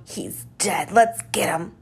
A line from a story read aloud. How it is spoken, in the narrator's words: He snarled